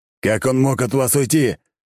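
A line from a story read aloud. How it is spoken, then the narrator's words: Growl into phone. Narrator (Russian): прорычал в трубку Альберт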